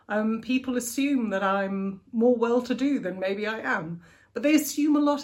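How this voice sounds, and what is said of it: Posh English accent. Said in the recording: “my posh accent ... it sounded incredibly stuck up ... my accent has also gotten me jobs”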